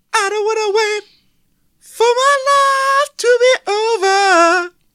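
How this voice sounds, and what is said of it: Sung in piercing falsetto. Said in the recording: “pipes of an angel ... I can only sing in a fine, piercing falsetto”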